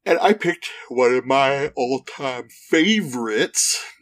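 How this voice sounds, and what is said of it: Yawning while speaking. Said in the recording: “You can tell by how excited my voice is as I yawned while I said that.”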